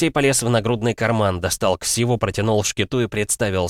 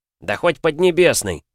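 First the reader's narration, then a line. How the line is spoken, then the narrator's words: Snapped. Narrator (Russian): огрызнулся Кирилл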